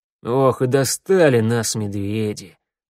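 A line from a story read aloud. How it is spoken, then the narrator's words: Sighed, elder. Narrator (Russian): вздохнул старший Урсу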